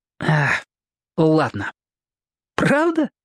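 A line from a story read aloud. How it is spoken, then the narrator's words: Laughing. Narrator (Russian): Он засмеялся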